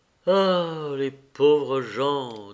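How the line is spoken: Sighing. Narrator (French): dit-il en soupirant

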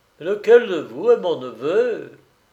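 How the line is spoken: Hollow voice. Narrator (French): Il dit d'une voix creuse

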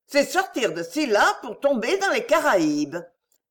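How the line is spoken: Exclaimed. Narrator (French): s'écria Doña Eufrasia

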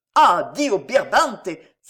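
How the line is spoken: Exclaiming. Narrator (French): s'écria Concini

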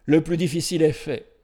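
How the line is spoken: Exclaiming. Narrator (French): s'écria

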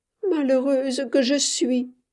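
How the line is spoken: Voice broken by sobs. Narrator (French): disait-elle d'une voix entrecoupée de sanglots

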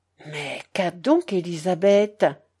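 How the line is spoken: Plain. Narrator (French): demanda Madame Musso

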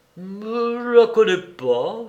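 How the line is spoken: Stammering. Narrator (French): balbutia l'Aversac

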